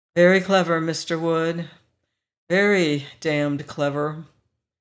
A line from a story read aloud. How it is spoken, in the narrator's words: I picked it up wearily and said